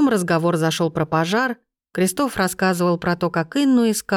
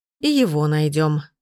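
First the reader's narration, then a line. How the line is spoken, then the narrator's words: Grim. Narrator (Russian): мрачно кивнул Гийом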